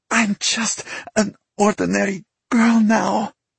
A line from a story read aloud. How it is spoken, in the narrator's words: Vika nearly choked on the thought